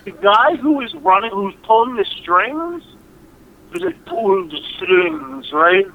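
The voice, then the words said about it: Imitates another person's voice. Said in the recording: “my attempt at doing a Bela Lugosi reference ... that was my impression of Martin Landau doing... Doing Bela Lugosi”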